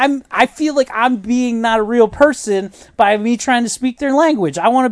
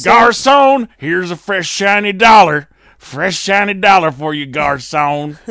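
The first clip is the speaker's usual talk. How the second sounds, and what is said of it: Thick put-on Southern American accent. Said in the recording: “I put on a thick Southerner accent.”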